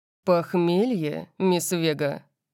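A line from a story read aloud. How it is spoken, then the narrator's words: Growl. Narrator (Russian): Он зарычал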